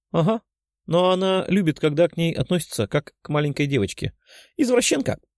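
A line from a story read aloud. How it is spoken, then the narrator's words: Giggling. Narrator (Russian): Хихикнула Лиза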